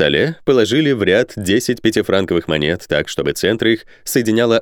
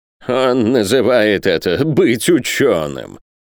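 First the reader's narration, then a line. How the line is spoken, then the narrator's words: Contemptuous snort. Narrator (Russian): презрительно фыркнул Пальмирен Розет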